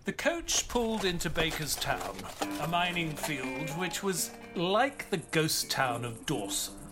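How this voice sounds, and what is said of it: London English accent. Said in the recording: “You talk funny... It's an accent... Y'all from the London?... It's just London... You sound just like Mr. Holmes.”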